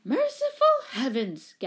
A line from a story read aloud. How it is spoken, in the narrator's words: gasped the woman